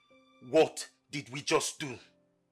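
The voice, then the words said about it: Yelling. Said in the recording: “you're yelling”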